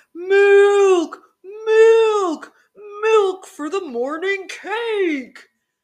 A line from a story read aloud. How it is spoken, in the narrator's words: the bakers ran up with a measuring cup, howling